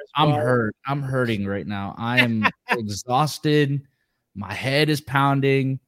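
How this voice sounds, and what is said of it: Worn-out, strained voice. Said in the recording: “my voice is just shot, so I'm trying here.”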